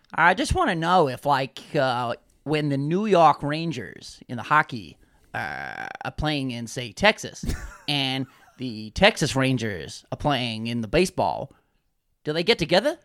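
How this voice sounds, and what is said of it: Put-on American Midwest accent. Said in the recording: “Fair accent. ... The Midwest. He's from the Midwest.”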